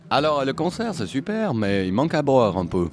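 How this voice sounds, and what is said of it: Exaggerated Valais Swiss French accent. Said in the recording (French): “Tu veux que je te réponde avec l'accent valaisan ? ... si t'as envie de faire un super accent valaisan”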